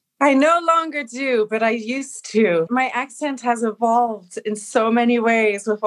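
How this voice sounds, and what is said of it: Usual voice. Nothing is said of it.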